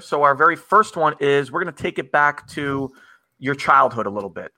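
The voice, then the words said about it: New Jersey accent. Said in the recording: “I love your accent, man ... the Jersey accent”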